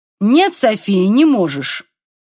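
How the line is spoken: Sharp. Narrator (Russian): резко сказал Купер

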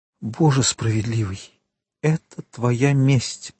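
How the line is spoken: Whisper. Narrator (Russian): прошептала госпожа Данглар

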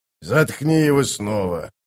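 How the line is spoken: Grumbled. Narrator (Russian): буркнул Кафал

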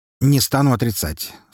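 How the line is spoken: Calm admission. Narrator (Russian): спокойно признался Харитонов

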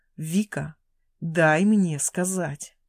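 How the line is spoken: Low hot growl. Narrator (Russian): Глухое рычание горячо

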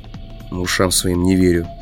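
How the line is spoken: Muttering. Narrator (Russian): пробормотал я

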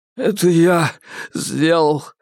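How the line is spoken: Choked out through sobs. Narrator (Russian): вздрагивая от рыданий, выдавил из себя Алби

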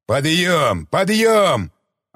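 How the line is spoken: Yelling. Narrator (Russian): орал тот

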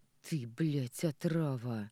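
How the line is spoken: Hoarse breathy exhale. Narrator (Russian): Сипло выдыхает

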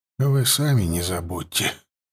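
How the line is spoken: Breathless exhale. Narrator (Russian): выдохнул человек

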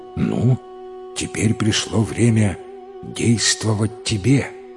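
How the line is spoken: Plain. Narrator (Russian): сказал Арсен царевичу

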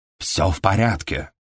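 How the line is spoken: Stage whisper. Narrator (Russian): сообщил он театральным шепотом

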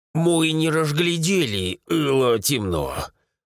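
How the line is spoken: Strained, forced out. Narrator (Russian): выдавил один из друзей Рамиля

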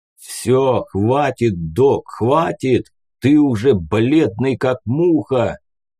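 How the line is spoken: Distant booming voice. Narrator (Russian): Прогудел где-то вдали голос батьки

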